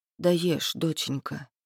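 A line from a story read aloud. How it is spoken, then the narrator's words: Quiet motherly speech. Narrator (Russian): тихо говорит мама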